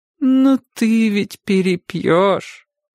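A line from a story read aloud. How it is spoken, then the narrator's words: Sad reminder. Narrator (Russian): грустно напомнила ему тетя Катя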